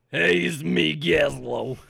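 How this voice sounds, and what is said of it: Goblin character voice. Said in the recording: “your goblin voice ... he rocks that voice all game”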